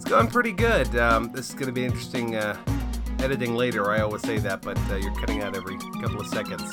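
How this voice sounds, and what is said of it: Stuffy, congested voice. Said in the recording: “Getting over bronchitis, if I sound stuffy to anybody”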